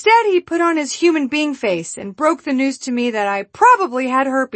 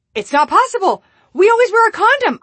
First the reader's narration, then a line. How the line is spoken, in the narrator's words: yelled